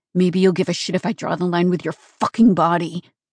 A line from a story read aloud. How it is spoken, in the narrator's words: Nico growled